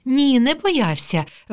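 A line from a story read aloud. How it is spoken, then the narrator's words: Cheerful mother. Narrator (Ukrainian): весело відповідає мама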